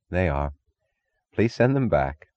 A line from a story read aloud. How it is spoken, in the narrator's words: Taggart would sigh